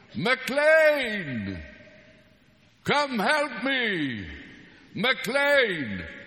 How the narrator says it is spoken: McLean is on the other side of the valley, and that's how she shouted

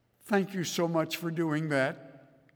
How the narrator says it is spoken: Mark's mother said

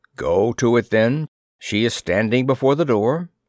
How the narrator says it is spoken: said the flounder

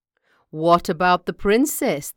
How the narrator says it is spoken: They said with a laugh

